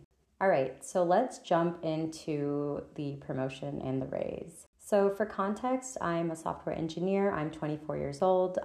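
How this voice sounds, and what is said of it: Scratchy voice. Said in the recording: “I am recovering from a cold and a cough, so my voice is a little bit scratchy”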